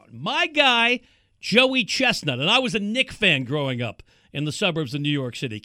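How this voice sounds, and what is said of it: Strong East Coast American accent. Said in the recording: “Can't you tell? East Coast accent is out today.”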